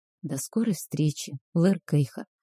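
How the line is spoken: Whispered farewell. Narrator (Russian): шепнула я напоследок

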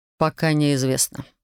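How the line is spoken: Sighing. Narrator (Russian): вздохнул Александр

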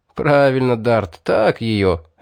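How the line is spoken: Hunters laughing. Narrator (Russian): рассмеялись охотники

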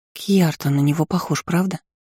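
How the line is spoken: Whispered. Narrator (Russian): шепнула Иза

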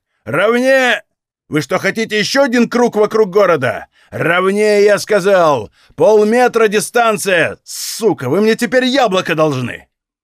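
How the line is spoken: Shouting after dropping something. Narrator (Russian): Последнее он прокричал после того, как что-то уронил

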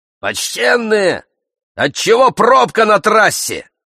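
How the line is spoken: Shout from below. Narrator (Russian): закричал снизу

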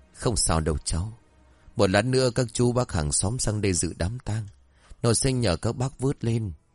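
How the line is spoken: Old man sighing. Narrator (Vietnamese): cụ Doãn chép miệng thở dài

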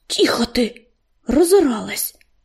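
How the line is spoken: Hiss. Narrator (Russian): прошипел он

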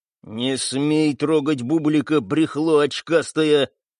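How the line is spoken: Menacing through gritted teeth. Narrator (Russian): угрожающе процедил Тони

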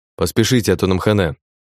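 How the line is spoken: Calm. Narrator (Russian): спокойно произнес

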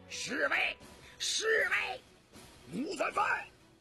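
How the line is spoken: Loud shout. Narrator (Chinese): 雍正大声喊道

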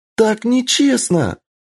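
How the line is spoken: Shrieking in helpless fury. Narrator (Russian): завизжала Кицуне с бессильной яростью и обидой

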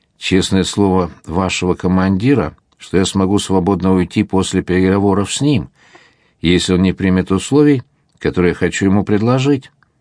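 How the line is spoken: Plain. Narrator (Russian): ответил губернатор

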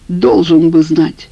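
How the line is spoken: Angry. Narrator (Russian): сердито сказал Иван Сергеевич

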